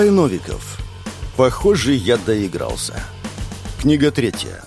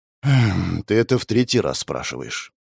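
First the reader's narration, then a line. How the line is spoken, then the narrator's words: Tired sigh. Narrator (Russian): вздохнул уставший мужчина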